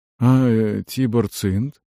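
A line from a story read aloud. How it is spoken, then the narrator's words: Quiet question, mercenary. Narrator (Russian): тихо спросил Дарш, наемник из Десятка Шора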